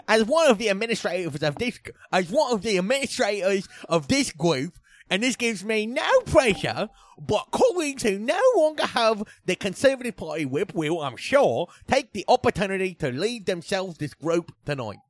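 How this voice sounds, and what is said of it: Put-on Cockney accent. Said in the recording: “Now do it in a Cockney accent.”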